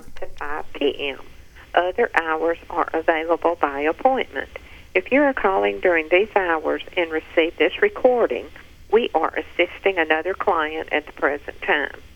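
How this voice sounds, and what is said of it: Woman with a strong regional accent. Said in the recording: “What's the most common name down there in the South? ... Love this chick's crazy accent.”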